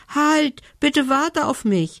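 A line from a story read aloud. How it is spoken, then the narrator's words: Elf calling after. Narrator (German): rief ihm die Elfe hinterher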